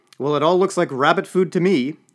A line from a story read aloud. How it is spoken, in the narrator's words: pointed out Senator Buffart loudly